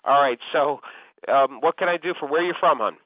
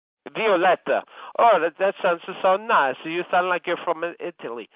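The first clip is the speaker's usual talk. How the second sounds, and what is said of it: Bad put-on Italian accent. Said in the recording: “that was a horrible Italian accent.”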